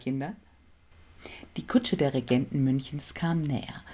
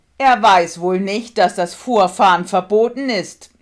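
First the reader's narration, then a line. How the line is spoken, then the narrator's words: Angry shout. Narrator (German): rief Ludwig erzürnt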